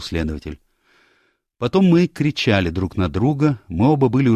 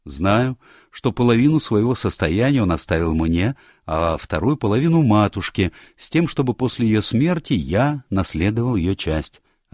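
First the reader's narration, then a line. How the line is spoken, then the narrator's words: Plain. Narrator (Russian): ответил молодой человек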